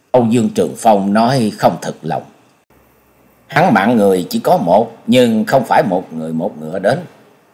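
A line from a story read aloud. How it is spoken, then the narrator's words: Muttered. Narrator (Vietnamese): Nhậm Sương Bạch lẩm bẩm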